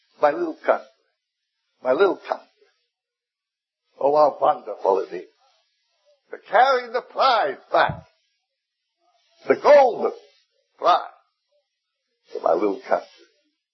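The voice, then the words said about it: Broken foreign accent. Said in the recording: “spoke with a broken accent”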